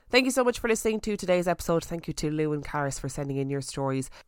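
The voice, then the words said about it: Congested, croaky, hoarse voice. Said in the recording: “my voice being sort of bunged up and croaky and hoarse ... you can hear it in my voice ... sounding like I'm reading them out underwater”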